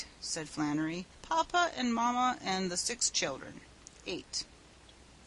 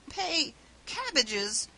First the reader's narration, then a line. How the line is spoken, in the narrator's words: gasped Mr